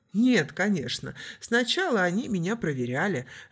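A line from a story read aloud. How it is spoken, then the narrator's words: Laughing. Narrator (Russian): рассмеялся суахили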